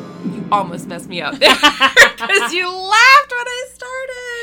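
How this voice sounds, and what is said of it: Usual voice. Nothing is said of it.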